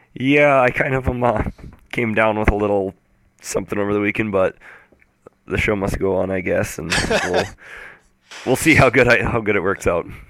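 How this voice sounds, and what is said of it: Sick, unwell-sounding voice. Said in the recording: “you sound terrible.”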